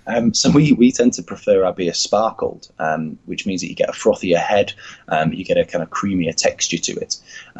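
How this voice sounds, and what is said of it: Northern English accent. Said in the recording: “I'm from the north, as any English listeners will be able to tell by my accent.”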